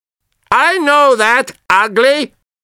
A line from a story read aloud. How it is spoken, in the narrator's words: I shouted to him